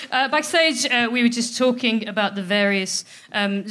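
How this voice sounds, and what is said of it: Usual voice. Nothing is said of it.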